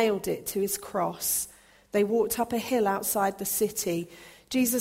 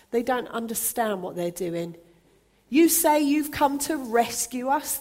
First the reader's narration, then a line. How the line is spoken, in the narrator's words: the people shouted